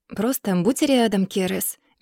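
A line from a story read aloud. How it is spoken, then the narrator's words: Soft. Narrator (Russian): мягко говорю я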